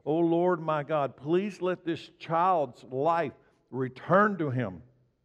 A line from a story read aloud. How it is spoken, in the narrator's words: he cried out to the Lord